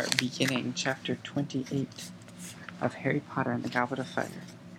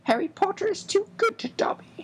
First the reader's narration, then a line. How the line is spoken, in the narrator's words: squeaked, wiping the large tears out of his enormous eyes